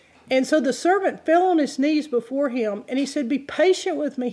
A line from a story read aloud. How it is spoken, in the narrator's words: he begged